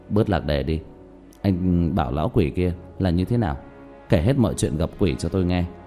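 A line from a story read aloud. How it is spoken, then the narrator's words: Deeply disappointed sigh. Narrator (Vietnamese): vô cùng hụt hẫng thở dài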